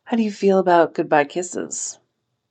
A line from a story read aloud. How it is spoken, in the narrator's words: Liu Qingyang chuckled, a sound from her chest